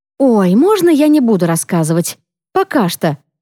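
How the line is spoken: Plain. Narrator (Russian): говорит Саана

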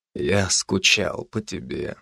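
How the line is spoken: Hoarse utterance. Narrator (Russian): хрипло вымолвил он

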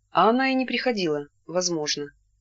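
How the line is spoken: Plain. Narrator (Russian): ответила Ирина

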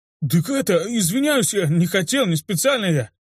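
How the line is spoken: Flustered babbling. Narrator (Russian): лепетал бригадир

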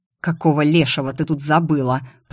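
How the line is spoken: Hiss. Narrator (Russian): прошипел Закери

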